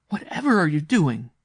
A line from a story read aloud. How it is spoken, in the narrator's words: she cried